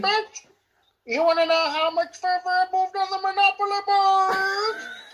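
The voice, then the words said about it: Put-on unidentified accent. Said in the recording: “Don't know what accent that was”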